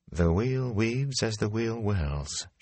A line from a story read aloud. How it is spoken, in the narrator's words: she murmured